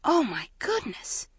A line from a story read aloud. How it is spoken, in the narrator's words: Maggie whispered